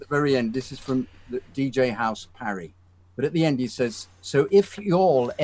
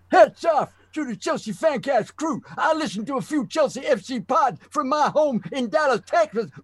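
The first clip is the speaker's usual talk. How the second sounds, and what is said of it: Exaggerated put-on American accent. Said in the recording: “I need ... reading it with his most hilarious American accent ... So what's my most hilarious?”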